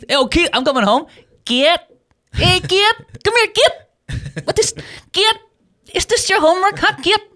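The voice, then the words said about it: Imitated Filipino accent, mother's voice. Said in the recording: “my mom, hardcore Filipino. You know Filipino accents. ... They can't pronounce a th.”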